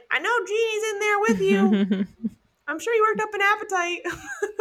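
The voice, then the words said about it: Comedic old grandma voice. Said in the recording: “Your grandma voice is really funny. ... Was it Nana? ... you can work on them a little bit ... I'm not a grandma, so I suppose that's why it's not great”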